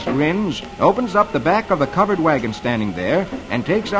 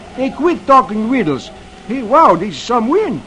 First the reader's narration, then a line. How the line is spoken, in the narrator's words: Beetle exclaims